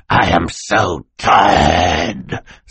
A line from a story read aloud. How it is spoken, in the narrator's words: Stefano snarled